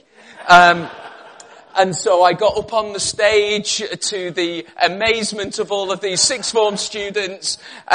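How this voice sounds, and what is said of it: Slight northwest English Liverpool accent. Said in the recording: “I'm originally from the northwest of England. You may slightly pick up some tinges in my accent. I was originally from Liverpool, lived in Cumbria um, a number of years. Uh, again, I've been down in Birmingham for about 20 years. Thank goodness, I haven't picked up that accent.”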